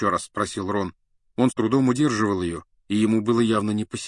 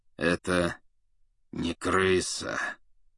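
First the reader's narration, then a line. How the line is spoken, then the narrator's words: Through gritted teeth. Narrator (Russian): процедил сквозь зубы Сириус Блэк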